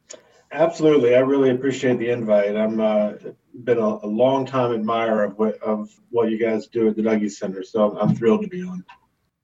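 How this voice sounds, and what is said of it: Mild Southern US accent. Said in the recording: “nice to hear the accent again ... not having a strong accent ... not from the South ... I, in fact, do have an accent”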